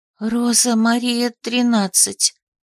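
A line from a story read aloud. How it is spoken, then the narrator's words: Quiet whisper. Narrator (Russian): прошептала она тихо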